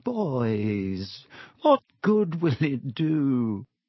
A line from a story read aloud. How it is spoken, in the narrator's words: he said, his voice feeble